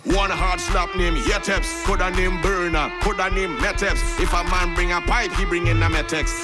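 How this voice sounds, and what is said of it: Trinidadian Creole dialect. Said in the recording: “I ain't changing my dialect, my patois.”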